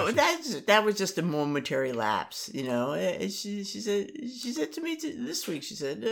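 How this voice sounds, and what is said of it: Usual voice. Nothing is said of it.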